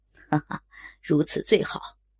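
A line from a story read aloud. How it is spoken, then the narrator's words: Lecherous laugh. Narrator (Chinese): 口中却淫笑着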